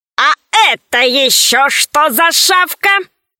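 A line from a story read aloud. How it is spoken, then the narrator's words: Rude question. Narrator (Russian): Невежливо спросил Громозека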